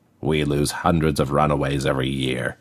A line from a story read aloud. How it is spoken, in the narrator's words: he grunted